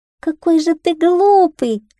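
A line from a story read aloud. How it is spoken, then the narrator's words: Shouting. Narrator (Russian): закричала кошечка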